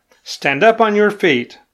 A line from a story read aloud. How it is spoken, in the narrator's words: called out